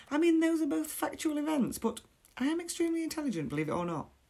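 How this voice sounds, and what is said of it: Working-class English accent. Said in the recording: “my accent makes me sound like I was dragged up on a council estate like Shameless”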